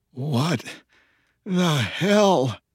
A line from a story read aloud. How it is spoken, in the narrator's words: I croaked